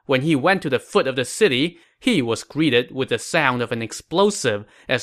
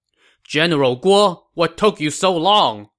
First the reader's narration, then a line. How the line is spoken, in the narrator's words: Sima Yi shouted